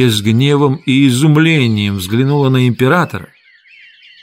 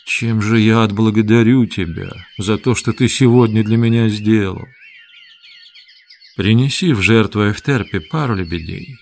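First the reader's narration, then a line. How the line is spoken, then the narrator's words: Quiet. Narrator (Russian): Вениций подошел к Петронию и тихо сказал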